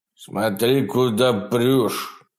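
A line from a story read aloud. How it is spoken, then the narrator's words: Child grumbling, deep voice. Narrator (Russian): проворчал ребенок глубоким голосом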